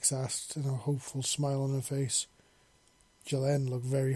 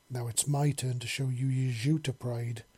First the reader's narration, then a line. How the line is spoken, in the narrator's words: she growled